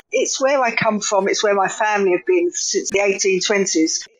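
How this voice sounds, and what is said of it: East London accent. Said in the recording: “you could probably tell from my accent already why I would write about East London”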